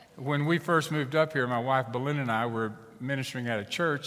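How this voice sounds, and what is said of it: Texan accent. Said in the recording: “you might detect that in my accent. I try to blend in wherever I go, but it is by default Texan.”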